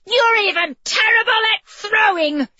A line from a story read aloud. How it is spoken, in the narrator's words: she yelled